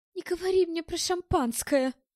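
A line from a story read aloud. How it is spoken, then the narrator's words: Pleading. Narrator (Russian): взмолилась Ирен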